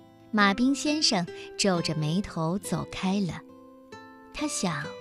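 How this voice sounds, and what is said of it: Usual voice. Nothing is said of it.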